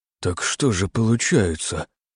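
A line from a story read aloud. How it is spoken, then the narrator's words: Whisper. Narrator (Russian): прошептал Тихоня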